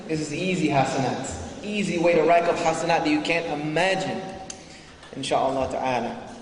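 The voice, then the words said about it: Mixed, non-native English accent. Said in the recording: “I'm even told by Americans that my accent is garbage ... too many Semitic languages mess up your throat and your vocal cords ... my accent is totally trashed ... So I mix it all together.”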